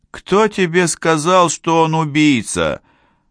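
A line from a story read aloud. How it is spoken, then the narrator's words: Heavy sigh. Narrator (Russian): Де Пальма тяжело вздохнул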